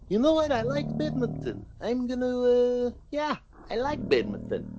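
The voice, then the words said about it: Slavic-accented impression of another person. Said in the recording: “that was a quick impression of him. Wasn't very accurate ... that sounded Polish ... It was too Slavic.”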